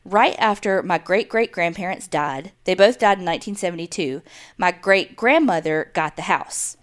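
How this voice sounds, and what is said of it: Strong country accent. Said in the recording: “you had the countryest accent”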